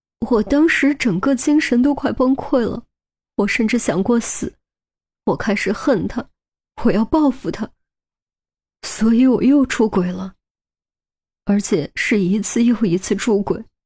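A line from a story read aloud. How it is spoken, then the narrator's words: Choked with sobs. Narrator (Chinese): 何丽萍哽咽着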